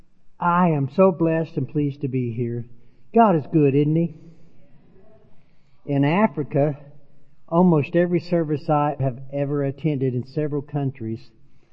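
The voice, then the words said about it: Southern American accent. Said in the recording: “my Southern Illinois, Arkansas, and Africa accent”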